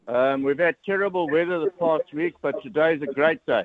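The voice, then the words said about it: Strong South African accent. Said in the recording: “You sound like you've got a strong Tauranga accent there ... from Johannesburg? ... Very strong South African Tauranga accent”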